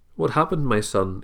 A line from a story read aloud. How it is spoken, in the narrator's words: Eli asked